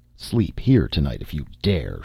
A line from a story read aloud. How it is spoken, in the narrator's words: growled